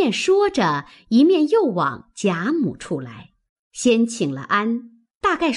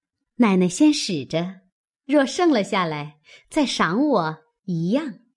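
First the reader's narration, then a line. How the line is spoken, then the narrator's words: Smiling. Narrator (Chinese): 平儿会意，笑说道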